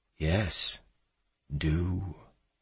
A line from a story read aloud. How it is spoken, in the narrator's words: he whispered to her intimately, almost like a lover